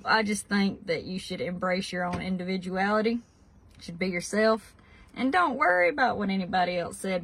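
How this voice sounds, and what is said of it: Kentucky accent. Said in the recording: “I absolutely love the Kentucky accent ... accent”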